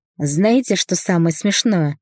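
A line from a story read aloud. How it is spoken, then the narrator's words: Chuckling. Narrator (Russian): хохотнула Светка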